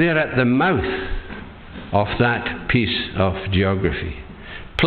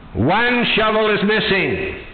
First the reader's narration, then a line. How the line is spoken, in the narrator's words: the guard shouted